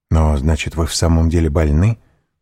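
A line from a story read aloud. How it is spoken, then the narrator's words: Quick question. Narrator (Russian): быстро спросил Морель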